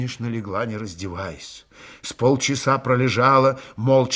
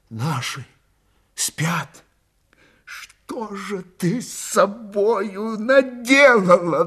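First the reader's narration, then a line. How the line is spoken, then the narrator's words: Sobbing half-voiced exclamation. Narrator (Russian): Давясь рыданиями, в полголоса воскликнула Ильинична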